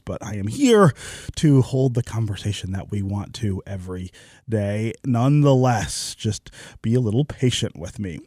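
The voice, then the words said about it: Hoarse, stuffy-nosed voice. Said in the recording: “I have caught the cold ... my voice is a little hoarse. I've got a little bit of a cough and a stuffy nose”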